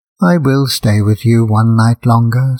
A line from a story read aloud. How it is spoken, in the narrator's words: said the Swallow